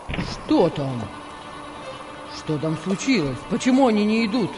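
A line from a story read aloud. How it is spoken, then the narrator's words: Irritated exclamation. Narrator (Russian): раздраженно воскликнул Петр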